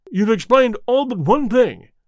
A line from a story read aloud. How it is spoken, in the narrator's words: cried the colonel